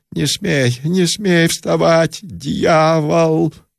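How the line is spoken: Loud shout. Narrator (Russian): Он громко закричал

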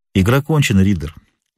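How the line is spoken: Calm. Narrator (Russian): проговорил спокойно Холмс

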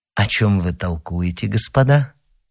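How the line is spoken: Gentle question. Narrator (Russian): спросил ласково

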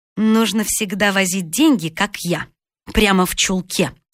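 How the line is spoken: Plain. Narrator (Russian): сказала толстая

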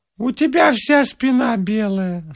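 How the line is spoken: Gramophone-like voice. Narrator (Russian): сказала Эллочка граммофонным голосом

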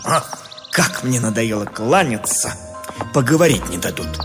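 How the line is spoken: Irritated mutter. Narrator (Russian): Вынужденный беспрестанно отвечать на приветствие, поэт раздраженно буркнул

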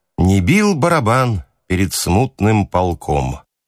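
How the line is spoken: Gloomy singing. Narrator (Russian): зеленый запевал мрачно

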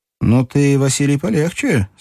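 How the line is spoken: Cheerful. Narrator (Russian): сказал Струков весело

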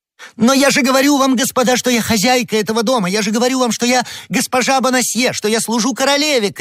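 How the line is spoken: Distressed shouting. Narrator (Russian): кричала несчастная женщина

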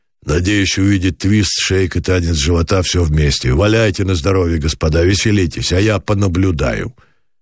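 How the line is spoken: Gloomy mocking rapid mutter. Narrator (Russian): пробормотал пасмурной ёрнической скороговоркой

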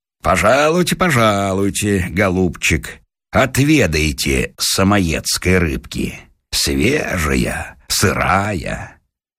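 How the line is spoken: Laughing. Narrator (Russian): говорит, смеясь, Дровосекину

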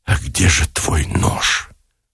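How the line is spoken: Choked whisper, laughing and sobbing. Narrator (Russian): выдавил шепотом Никитин и точно в беспамятстве, захлебываясь смехом и плачем

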